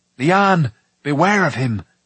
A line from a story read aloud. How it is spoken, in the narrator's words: Tyran cried